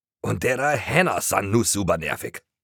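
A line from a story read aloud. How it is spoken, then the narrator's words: Loud groan. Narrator (German): stöhnte Toni laut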